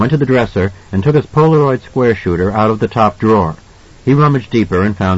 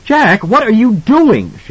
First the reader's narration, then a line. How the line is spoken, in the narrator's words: asked, a little hysterically